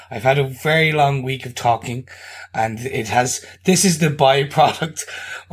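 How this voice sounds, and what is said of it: Deep gravelly strained voice. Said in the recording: “apologize for my voice... that deep, deep kind of, uh, smelly cat Phoebe... that deep gravelly voice... that sexy gravelly voice... I'm not playing this up”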